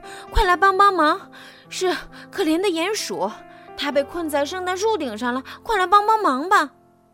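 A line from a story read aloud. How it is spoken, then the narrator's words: Breathless, panting. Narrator (Chinese): 兔子气喘吁吁地说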